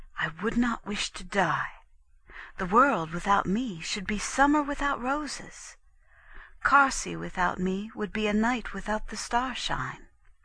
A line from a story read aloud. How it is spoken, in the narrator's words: to whisper in the nurse's ear